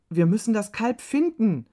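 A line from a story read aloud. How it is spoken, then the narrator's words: Called out. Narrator (German): rief Juma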